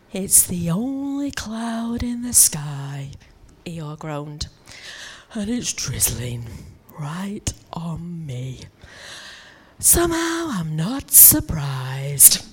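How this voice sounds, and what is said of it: Eeyore character voice. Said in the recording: “I'm gonna try and do my Eeyore voice now”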